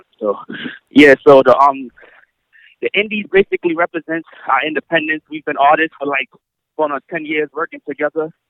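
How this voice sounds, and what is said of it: Speaks slightly out of breath. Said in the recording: “A little out of breath.”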